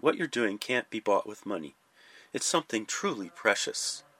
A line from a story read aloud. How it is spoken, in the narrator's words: he once said quietly, almost muttering with heartfelt emotion